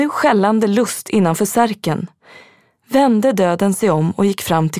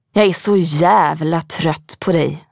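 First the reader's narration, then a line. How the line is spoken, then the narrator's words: Hissed. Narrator (Swedish): väste han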